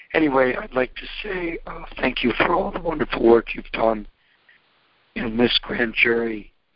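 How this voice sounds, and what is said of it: Weak, hoarse voice. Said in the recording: “I lost my voice yesterday.”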